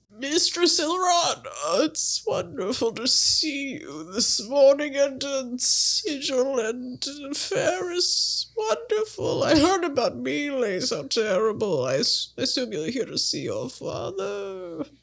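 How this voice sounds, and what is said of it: Distinct character voice. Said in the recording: “The completely different character voice.”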